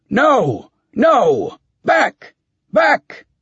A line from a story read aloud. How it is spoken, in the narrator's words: shouting